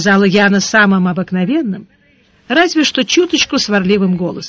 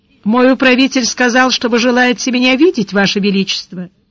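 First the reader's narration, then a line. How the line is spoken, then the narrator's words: Indifferent polite tone. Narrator (Russian): сказал безразличным светским тоном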